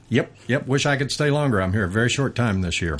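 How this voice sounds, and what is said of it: Texas accent. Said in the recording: “I love listening to your accent ... There's something about a Texas accent”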